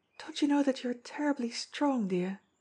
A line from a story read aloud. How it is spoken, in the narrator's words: she breathed